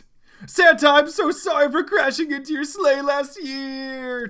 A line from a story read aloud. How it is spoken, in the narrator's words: Tails screamed